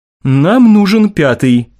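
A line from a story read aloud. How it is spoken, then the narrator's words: Grim statement. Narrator (Russian): мрачно заявил Мартин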